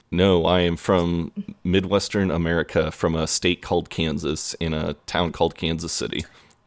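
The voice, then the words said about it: American Midwestern accent. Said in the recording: “as we can all hear from your accent, you're not from around these parts”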